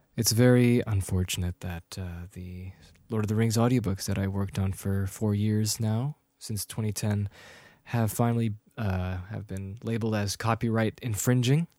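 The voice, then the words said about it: Serious, solemn speaking voice. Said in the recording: “my serious voice.”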